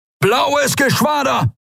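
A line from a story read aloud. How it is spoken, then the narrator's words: Roaring shout. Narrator (German): brüllte Telios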